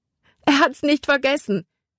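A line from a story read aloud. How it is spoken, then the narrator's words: Called out. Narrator (German): rief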